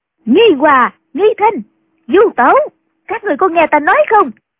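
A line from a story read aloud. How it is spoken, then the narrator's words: Loud calling. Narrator (Vietnamese): chàng lớn tiếng gọi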